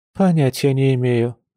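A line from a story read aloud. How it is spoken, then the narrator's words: Resigned sigh, woman. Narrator (Russian): обреченно вздохнула женщина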